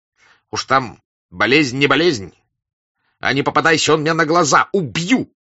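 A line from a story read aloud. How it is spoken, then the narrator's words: Bloodthirsty shouting. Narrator (Russian): кровожадно прокричал Денисов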